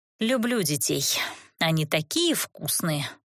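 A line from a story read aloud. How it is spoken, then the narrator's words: Muttered with feeling. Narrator (Russian): с чувством пробормотала я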